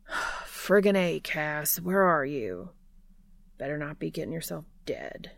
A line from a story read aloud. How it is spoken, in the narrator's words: he mutters